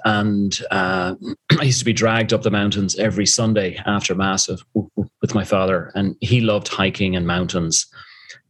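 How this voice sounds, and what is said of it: Irish accent. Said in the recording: “you tell from the accent, I'm originally from Dublin, Ireland”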